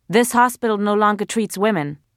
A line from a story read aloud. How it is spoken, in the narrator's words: the guard barked